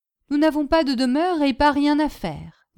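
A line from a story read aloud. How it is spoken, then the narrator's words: Plain. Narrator (French): dit Boginski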